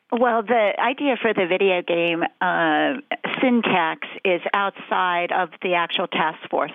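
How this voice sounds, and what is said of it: Sick-sounding, affected voice. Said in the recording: “Excuse my voice. I've had the flu.”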